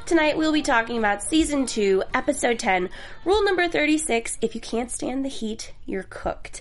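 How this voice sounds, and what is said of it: Congested voice from a cold. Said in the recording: “I apologize in advance if I cough or I sound congested for those that are listening and watching. I have a bit of a cold,”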